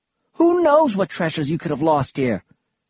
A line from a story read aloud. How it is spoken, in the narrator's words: She snapped